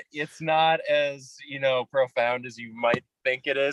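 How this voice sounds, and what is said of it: Upper Midwest American accent. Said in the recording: “I'm from Minnesota, but I kind of sound, aside from a few”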